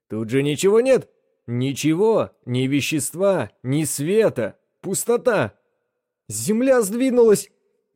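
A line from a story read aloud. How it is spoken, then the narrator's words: Hysterical shouting. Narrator (Russian): истерично закричал Пойнт-Декстер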